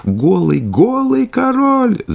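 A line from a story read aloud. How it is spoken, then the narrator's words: Crowd shouting. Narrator (Russian): закричал, наконец, весь народ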